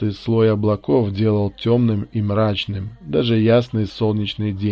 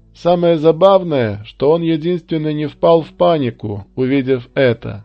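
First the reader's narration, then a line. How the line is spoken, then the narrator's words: Shouted reply. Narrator (Russian): крикнул в ответ Луис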